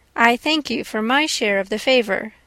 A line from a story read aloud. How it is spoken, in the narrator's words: said Elizabeth